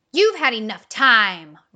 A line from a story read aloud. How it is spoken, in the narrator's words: roared the croc